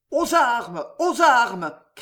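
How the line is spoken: Crowd shouting. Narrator (French): criaient les Français

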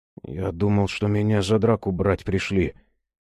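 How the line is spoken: Glum. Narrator (Russian): уныло ответил Богомольцев

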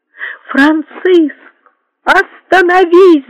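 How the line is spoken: Shouted. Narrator (Russian): закричала Екатерина

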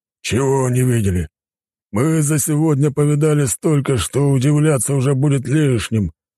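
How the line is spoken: Grumbled. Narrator (Russian): пробурчал мужчина

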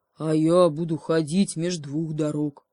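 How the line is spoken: Bear's growl. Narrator (Russian): прорычал медведь

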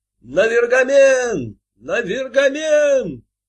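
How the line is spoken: Crowd shouting in unison. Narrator (Russian): Все, как один человек, закричали

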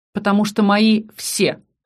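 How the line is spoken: Snorting smirk. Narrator (Russian): хмыкнул Аскани

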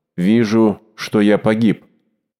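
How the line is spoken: Hollow voice, president. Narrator (Russian): президент сказал глухим голосом

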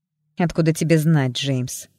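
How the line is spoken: Irritated question. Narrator (Russian): раздраженно спросила

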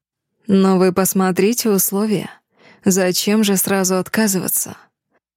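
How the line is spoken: Purring. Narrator (Russian): Мурлыкнул Дэмиан

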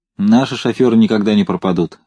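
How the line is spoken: Plain. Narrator (Russian): сказал Семенов

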